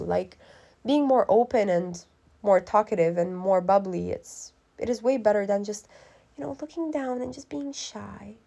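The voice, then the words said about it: Raspy voice. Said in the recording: “my voice is so raspy now”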